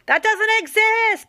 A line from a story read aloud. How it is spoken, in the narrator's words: shouted behind him